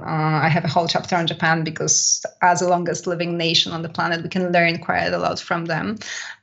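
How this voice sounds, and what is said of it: Polish accent. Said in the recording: “I went to a hugging salon in Poland as well, which is my home country, by the way, if anybody wonders about my accent.”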